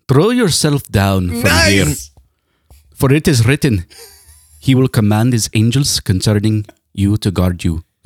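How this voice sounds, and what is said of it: Put-on East Indian accent. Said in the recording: “Can you do this in an accent like Vladimir Putin? ... That's definitely East Indian.”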